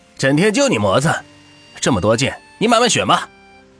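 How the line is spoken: Calling out. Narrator (Chinese): 老板喊道

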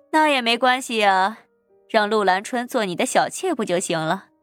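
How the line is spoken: Smiling. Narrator (Chinese): 林桂生笑眯眯道

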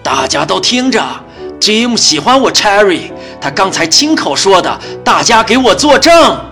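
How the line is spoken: Loud announcement. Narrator (Chinese): 大声地说道

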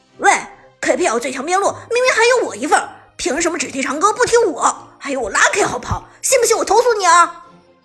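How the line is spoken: Frustrated shout. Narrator (Chinese): Lucky 则一脸郁闷的喊道

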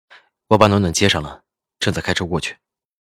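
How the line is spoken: Low voice, laughing. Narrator (Chinese): 赵以静沉声笑着

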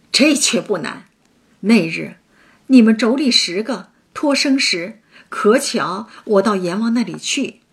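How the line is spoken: Laughing. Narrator (Chinese): 孙行者笑道

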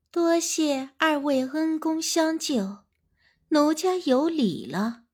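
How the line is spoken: Low high-pitched voice. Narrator (Chinese): 瘦猴子低声尖细着嗓音说

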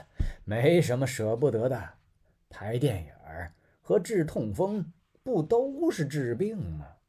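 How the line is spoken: Laughing. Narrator (Chinese): 他笑了

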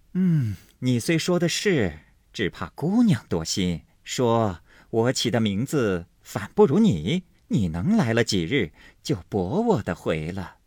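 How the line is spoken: Laughing. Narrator (Chinese): 金贵笑道

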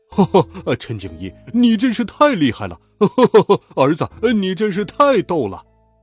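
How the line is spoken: Laughing heartily. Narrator (Chinese): 我听到爸爸哈哈大笑

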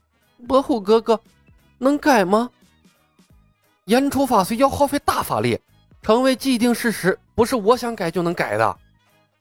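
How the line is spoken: Choked, tearful voice. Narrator (Chinese): 胡晓彤……哽咽道

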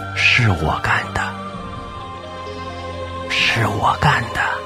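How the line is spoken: Whispering. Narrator (Chinese): 他凑到周宝强耳边，小声道

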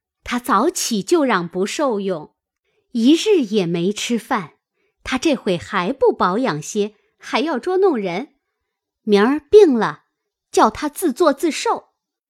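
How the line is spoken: Laughing. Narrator (Chinese): 麝月笑道

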